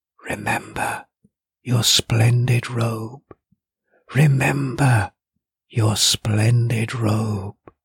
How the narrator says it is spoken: the lapping ocean into which the great river flowed whispered

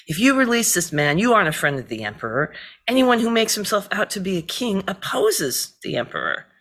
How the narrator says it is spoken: the Jewish leaders cried out, saying

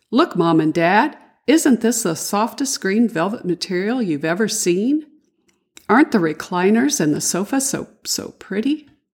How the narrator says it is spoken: Davy exclaimed

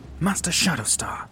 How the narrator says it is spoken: hissed Turum, growing impatient

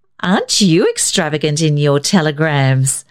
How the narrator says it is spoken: Isabel laughed

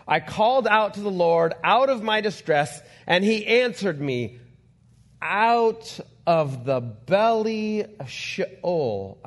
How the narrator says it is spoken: I cried

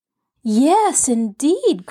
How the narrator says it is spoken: cried Jess

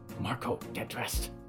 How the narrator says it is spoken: she hissed

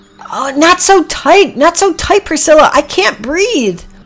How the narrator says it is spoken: Packy gasped

